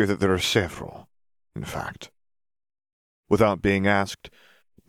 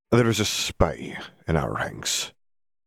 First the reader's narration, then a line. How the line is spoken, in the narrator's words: he sighed